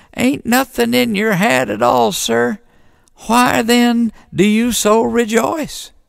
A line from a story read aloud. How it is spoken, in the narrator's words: said the deacon in a quivery little voice